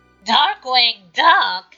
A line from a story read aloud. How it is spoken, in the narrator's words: Megavolt rasped out